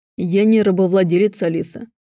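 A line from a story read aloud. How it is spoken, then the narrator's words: Icy, clipped. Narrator (Russian): чеканит Аарон ледяным тоном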